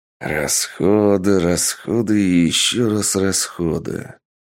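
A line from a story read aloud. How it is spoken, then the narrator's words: Bitter grumbling. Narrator (Russian): ворчал Сергей, что потратился настолько, что хотелось волком выть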